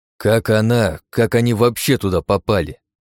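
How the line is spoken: Growl. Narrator (Russian): прорычал я

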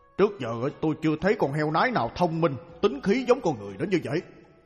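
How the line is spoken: Muttering to himself. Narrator (Vietnamese): Vương Đồ Tể lẩm bẩm một mình

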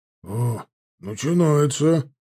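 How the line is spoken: Grumbling. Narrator (Russian): проворчал Чанов

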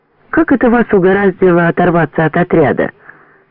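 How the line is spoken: Plain. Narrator (Russian): спросил Андрюшу Дмитриев

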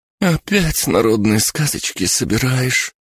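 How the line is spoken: Heavy groan. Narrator (Russian): Тяжко простонала Бригитта

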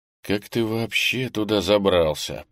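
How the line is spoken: Mutter. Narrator (Russian): пробормотал я

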